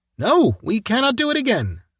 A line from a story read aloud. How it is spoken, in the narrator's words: Levchin cried